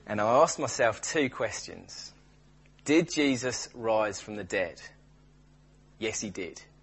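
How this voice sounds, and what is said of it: Imitates another person's accent. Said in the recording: “shall I do the accent?”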